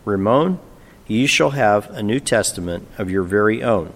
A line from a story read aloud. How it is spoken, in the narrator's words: she said quietly